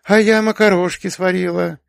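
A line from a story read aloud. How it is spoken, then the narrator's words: Flustered. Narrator (Russian): растерянно доложила она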